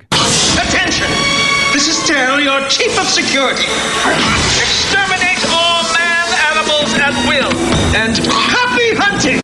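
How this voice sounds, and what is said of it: Weird British Shakespearean accent. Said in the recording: “This weird British / Shakespearean accent.”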